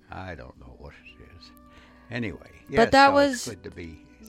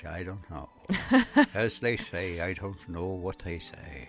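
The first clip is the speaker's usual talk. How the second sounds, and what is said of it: Failed attempt at Irish accent. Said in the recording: “That was not an Irish accent.”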